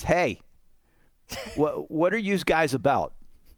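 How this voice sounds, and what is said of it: Put-on Pittsburgh accent. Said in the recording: “good Pittsburgh accent”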